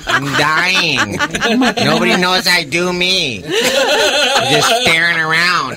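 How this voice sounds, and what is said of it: Imitates another person's voice. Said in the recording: “the greatest impression you've ever heard”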